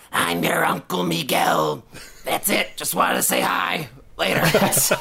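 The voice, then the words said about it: Imitates a movie zombie's voice. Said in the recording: “Can I do my impression of the dialogue?”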